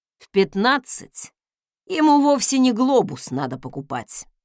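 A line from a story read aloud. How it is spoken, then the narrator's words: Skeptical snort. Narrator (Russian): хмыкнул Фостен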